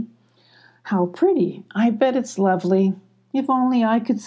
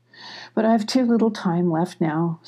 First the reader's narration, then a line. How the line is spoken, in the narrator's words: sighed Wallow